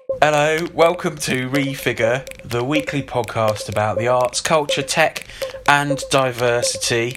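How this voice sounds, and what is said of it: Silly, weird put-on accent. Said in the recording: “Why are you talking in a sort of weird accent? ... I'm just being silly.”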